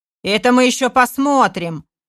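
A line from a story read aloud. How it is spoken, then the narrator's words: Shout. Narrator (Russian): выкрикнул Будрухан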